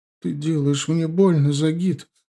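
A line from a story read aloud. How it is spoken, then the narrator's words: Sobbing. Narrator (Russian): зарыдала Оксана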